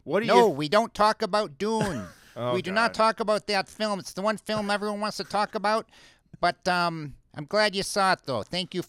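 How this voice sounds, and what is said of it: Imitates another person's voice. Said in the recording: “You do an impression. ... David Lynch.”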